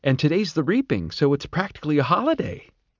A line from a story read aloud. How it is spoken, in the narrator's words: she said cheerfully